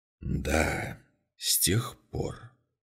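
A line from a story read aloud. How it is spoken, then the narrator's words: Quiet repetition. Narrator (Russian): тихо повторил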